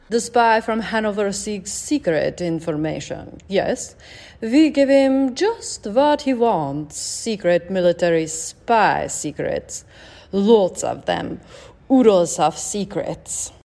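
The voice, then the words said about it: Put-on Soviet accent. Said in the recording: “she said in a put-on Soviet accent”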